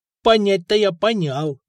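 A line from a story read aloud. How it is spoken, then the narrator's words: Snorting. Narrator (Russian): хмыкнул Миха, тот самый парнишка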